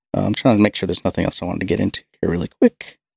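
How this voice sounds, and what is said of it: Strained, fading voice. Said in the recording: “I'm kind of losing my voice.”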